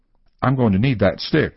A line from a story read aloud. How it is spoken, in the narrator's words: Baxter said, curtly